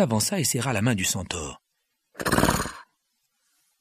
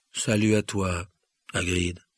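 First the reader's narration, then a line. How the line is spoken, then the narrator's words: Grave sad voice. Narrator (French): répondit Ronan d'une voix grave et triste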